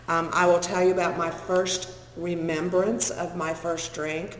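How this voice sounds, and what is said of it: Funny accent, picked up in Texas. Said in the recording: “I was living in Texas... That's the funny accent.”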